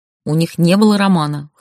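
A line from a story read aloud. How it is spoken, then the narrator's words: Wry snort. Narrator (Russian): хмыкнула я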